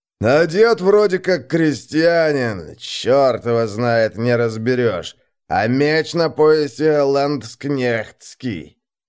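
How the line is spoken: Drawling man. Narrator (Russian): протянул второй

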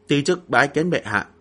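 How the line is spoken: Raised voice. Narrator (Vietnamese): Hứa Thất An tất cao giọng

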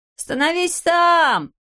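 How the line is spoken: Shout from crowd. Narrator (Russian): закричал кто-то из зрителей

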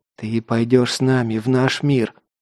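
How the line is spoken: Kidnapper hissing. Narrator (Russian): прошипел старший похититель

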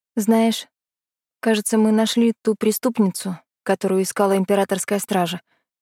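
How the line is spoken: Soft, quiet. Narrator (Russian): тихонько сказала я

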